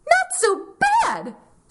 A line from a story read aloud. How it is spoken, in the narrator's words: Piggy exclaimed